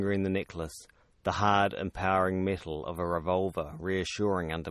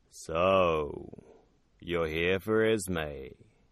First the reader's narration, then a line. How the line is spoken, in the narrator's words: asked, his voice deeper than an ocean trench